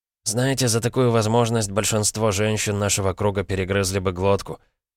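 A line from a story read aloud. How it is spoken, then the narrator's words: Prince's wry snort. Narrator (Russian): хмыкнул принц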